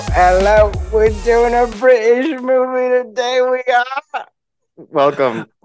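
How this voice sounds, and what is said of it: Put-on British accent. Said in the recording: “I thought I'd get a real nice British accent going.”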